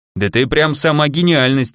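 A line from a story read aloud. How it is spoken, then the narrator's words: Smirking snort. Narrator (Russian): хмыкнул Шуст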